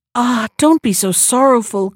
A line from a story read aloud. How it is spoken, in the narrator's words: cried Beauty